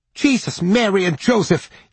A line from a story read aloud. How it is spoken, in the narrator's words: yelped Rudy